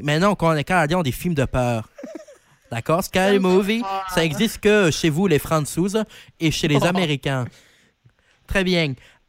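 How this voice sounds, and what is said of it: Put-on accent slipping toward Marseille. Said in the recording (French): “Oula, ça part en accent marseillais ... t'as du mal à tenir ton accent”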